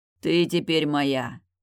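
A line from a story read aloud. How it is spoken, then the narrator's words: Commanding growl. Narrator (Russian): властно рыкнул он мне в макушку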